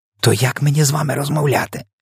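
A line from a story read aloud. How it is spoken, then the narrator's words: Even quieter whisper. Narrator (Ukrainian): ще тихіше прошепотіла Софія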